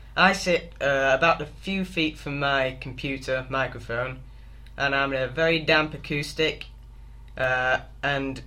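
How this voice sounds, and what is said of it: Northern English accent. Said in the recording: “my accent doesn't really help, because up here in the north of England we don't tend to pronounce our consonants very strongly”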